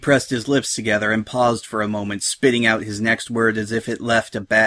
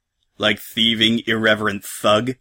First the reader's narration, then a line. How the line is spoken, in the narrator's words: Salt growled